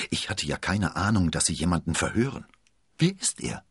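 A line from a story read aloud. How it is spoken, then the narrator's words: Murmuring. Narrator (German): murmelte Rochefort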